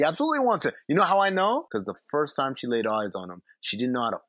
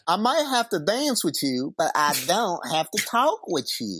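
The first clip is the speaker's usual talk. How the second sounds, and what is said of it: Bad put-on Southern accent. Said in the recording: “southern accent is really, really on display... It's really bad... Con Air bad... doing a perfect representation of how she sounds.”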